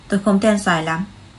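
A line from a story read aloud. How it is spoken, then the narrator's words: Cold. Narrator (Vietnamese): Ánh mắt Lý Tư Tân tối đi, lạnh lùng nói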